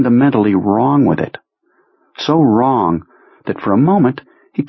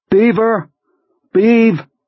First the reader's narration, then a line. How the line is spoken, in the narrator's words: Henry shouts